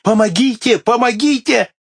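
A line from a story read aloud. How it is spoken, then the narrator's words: Desperate choking screams. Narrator (Russian): Несчастный, схваченный щупальцами спрута, задыхался и отчаянным голосом кричал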